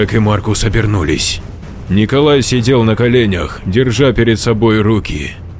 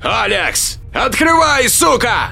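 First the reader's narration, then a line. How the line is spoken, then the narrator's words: Yelling. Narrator (Russian): орал Джек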